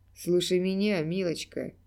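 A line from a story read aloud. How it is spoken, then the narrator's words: Clown's rough, hoarse voice. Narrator (Russian): проговорил клоун грубым сорванным голосом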